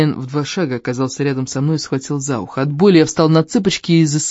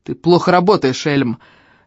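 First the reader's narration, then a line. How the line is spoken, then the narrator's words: Barked. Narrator (Russian): рявкнул на него трактирщик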